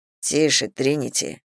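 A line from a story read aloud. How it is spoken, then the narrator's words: Murmured. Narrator (Russian): пробормотал Зейн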